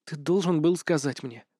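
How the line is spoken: Whisper. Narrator (Russian): прошептала

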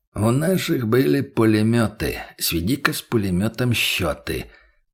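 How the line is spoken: Humming under breath. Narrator (Russian): промурлыкал он себе под нос

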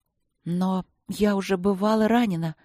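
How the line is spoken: Uncertain, drowsy voice. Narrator (Russian): проговорила я неуверенно, еле разлепив глаза

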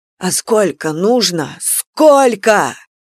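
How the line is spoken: Shouting. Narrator (Russian): Он кричал

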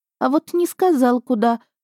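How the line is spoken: Confused, bewildered reply. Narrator (Russian): растерянно ответила горничная

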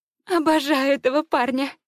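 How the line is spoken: Laughing. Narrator (Russian): сквозь смех произносит она

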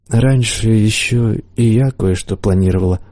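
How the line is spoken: Sad reply. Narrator (Russian): грустно ответила чародейка

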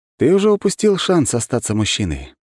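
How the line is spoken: Sighing. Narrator (Russian): вздохнул Кузнецов

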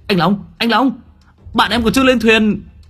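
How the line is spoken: Shouting. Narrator (Vietnamese): Hùng Bà Co hét lên

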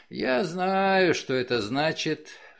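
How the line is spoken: Sighing. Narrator (Russian): вздохнув, сказал Джефф

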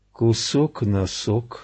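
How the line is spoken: Sleepy mumble. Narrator (Russian): сонно пробормотал Генри

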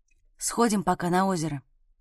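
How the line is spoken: Happy whispered question. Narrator (Russian): спросил Саня почему-то шепотом, счастливо улыбаясь

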